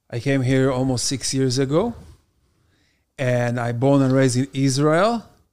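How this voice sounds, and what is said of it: Slight foreign accent. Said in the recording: “you're not from here. You're from like Long Island or somewhere with your accent. ... So a little bit foreign.”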